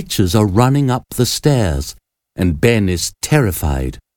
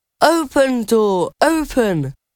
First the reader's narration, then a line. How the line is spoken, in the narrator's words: Ben shouts again